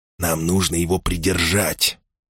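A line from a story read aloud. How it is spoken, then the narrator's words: Whisper. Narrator (Russian): прошептал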